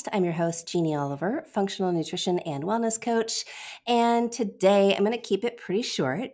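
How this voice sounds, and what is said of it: Nasal, congested voice from head cold. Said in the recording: “I have a little head cold sinus thing going on, which you can probably hear in my voice. I'm very nasal.”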